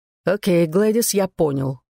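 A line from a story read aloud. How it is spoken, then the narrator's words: Cold. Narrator (Russian): холодно сказал Дуг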